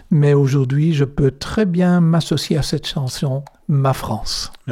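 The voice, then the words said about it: Belgian French accent. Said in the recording (French): “Je suis belge comme mon accent”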